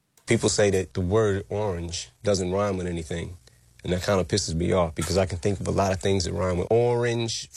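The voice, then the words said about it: Distinct accent. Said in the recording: “Got that quite a distinct accent.”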